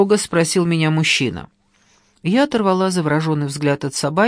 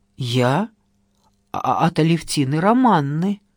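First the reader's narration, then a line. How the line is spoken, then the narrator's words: Trembling voice. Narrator (Russian): сообщила дрожащим голосом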